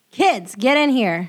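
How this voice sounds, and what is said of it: Stern teacher voice calling kids. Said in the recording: “Use your teacher voice.”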